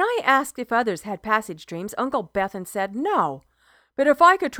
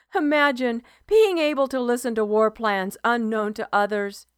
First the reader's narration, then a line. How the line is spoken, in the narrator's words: he laughed